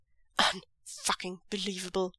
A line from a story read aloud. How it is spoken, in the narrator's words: Zhang Chang mutters